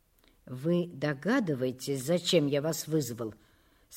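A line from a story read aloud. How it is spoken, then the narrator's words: Weak, muffled elderly voice. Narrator (Russian): спросил директор, пожилой, с ватным, слабым голосом человек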